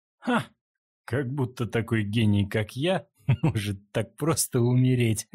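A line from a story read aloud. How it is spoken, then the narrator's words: Laughing. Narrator (Russian): рассмеялся Линхуан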